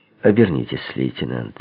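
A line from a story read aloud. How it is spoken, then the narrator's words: Quiet. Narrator (Russian): негромко произнес я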